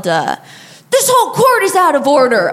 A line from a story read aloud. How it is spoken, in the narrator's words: he yelled